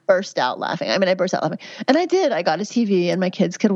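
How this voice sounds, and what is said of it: Usual voice. Nothing is said of it.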